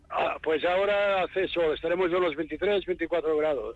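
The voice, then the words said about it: Spanish with a Catalan accent. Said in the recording (Catalan): “Aquest home tenia accent català? ... Parlava malament el castellà? ... Notava que no parlava cada dia el castellà ... Com impostat ... tenia aquest accent”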